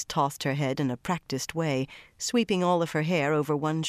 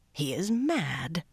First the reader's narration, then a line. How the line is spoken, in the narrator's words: Tion growled